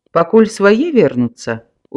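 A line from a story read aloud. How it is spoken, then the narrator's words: Smiling. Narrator (Belarusian): усміхнуўся староста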